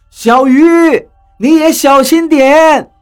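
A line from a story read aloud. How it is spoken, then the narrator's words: Shouting. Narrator (Chinese): 何洛冲我喊道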